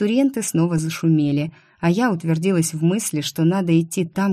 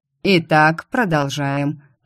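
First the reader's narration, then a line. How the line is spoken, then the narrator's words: Deep bass voice. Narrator (Russian): пробасил секретарь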